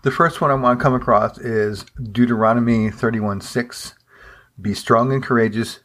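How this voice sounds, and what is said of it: Hoarse, croaky throat. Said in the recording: “Excuse me, I have a, I have a frog in my throat this morning.”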